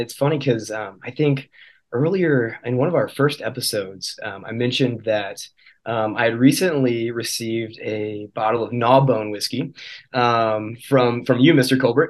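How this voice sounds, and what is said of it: Slightly hoarse voice. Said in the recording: “my voice is a little bit hoarse. I have had a little bit of a cold recently”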